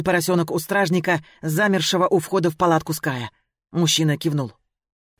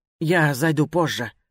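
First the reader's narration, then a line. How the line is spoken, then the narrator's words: Embarrassed mumble. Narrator (Russian): пробормотала я, чувствуя, что краснею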